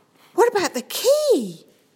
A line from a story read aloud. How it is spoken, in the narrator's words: Sam exclaimed